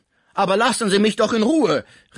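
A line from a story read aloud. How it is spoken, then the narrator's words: Called out. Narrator (German): rief Pons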